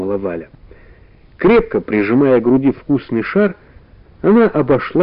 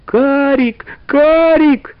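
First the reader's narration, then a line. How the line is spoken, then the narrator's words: Frightened girl shouting. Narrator (Russian): испуганно закричала девочка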